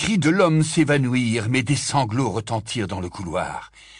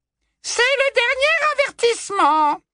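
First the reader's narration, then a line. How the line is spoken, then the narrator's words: Sugary, magically amplified. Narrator (French): dit alors la voix doucereuse d'ombrage amplifiée par la magie pour couvrir les hurlements désespérés de l'accusé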